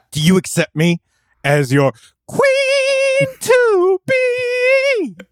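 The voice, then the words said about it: Sung imitation of a film character. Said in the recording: “We need more Freddie Mercury impersonators. ... That was an impersonation of the guy from Coming to America who sings Your Queen to Be. ... In the tones of Freddie Mercury?”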